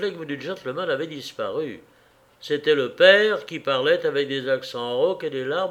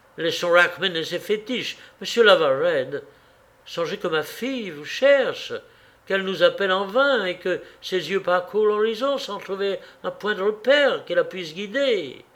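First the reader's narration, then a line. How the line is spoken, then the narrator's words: Impatient exclamation. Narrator (French): s'écria Mulliton avec impatience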